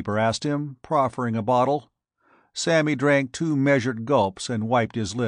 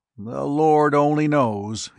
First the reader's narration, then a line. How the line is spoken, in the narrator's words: sighed